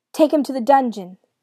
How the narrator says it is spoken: the young king shouted

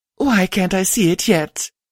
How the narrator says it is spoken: Lust whined

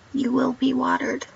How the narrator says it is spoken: he said

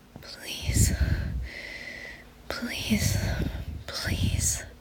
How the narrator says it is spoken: they moaned

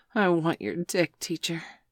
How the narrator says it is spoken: Bailey pleaded ... he groaned

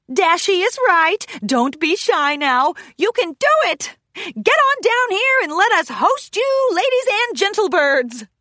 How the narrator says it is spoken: Wendy whistles hollered

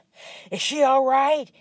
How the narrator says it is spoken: he panted to his chief

